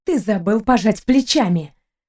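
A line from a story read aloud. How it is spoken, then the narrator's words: Hissed. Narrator (Russian): прошипела я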